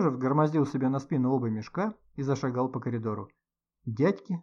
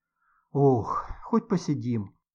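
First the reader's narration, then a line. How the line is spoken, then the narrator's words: Relieved sigh. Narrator (Russian): С облегчением вздохнув, сказала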